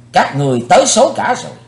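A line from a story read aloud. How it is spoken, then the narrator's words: Loud shout. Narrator (Vietnamese): Chí Tôn quát lớn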